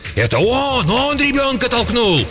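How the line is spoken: Frantic shrill yelling. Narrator (Russian): кто-то истошно вопил

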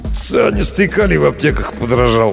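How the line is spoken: Gloomy curt remark. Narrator (Russian): мрачно бросил Павел

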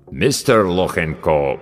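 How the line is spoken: Deep voice, mangled name. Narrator (Russian): пробасил авербанкащик, как обычно, безбожно коверкая фамилию

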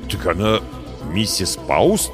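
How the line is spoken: Confused muttering. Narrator (Russian): растерянно пробормотал я

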